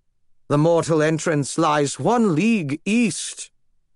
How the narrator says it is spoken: he intoned

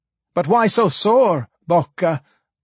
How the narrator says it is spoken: cried someone else

